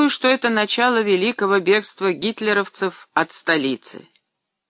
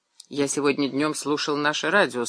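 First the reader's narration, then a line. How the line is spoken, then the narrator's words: Calm. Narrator (Russian): спокойно заговорил Иван Васильевич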